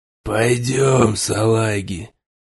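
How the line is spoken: Hoarse rasp. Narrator (Russian): прохрипел

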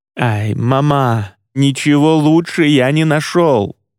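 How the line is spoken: Exclaimed. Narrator (Russian): воскликнул бруха

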